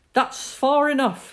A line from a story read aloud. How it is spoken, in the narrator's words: his father's shouts were sharp